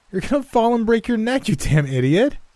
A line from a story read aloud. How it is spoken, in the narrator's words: my wife called out, still laughing, with tears streaming from her eyes